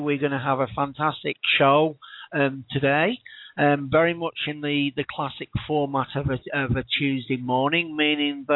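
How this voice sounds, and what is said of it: Tired-sounding voice. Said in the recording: “you'll probably tell from my voice, many of the regular listeners, that I am indeed tired this morning”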